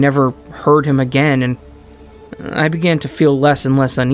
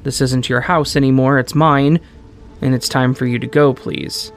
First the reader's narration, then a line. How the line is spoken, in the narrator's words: Calmly, my mom explained